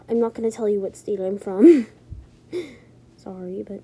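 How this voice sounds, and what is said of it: American English accent. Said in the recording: “you probably could tell that I'm from America... you could have known that I was from the U.S. By my accent”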